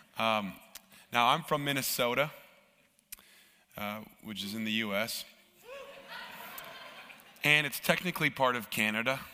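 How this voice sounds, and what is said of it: Hoarse, rough-throated voice. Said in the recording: “Excuse my voice. ... I'm um, dealing with a little bit of a uh, rough throat”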